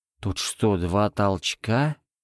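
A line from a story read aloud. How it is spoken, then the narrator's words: Forced out. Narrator (Russian): выдавил из себя Карась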